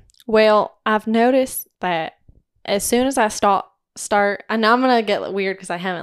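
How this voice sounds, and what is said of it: Usual voice. Nothing is said of it.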